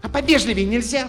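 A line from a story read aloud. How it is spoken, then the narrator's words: Girl snapping. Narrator (Russian): Огрызнулась девчонка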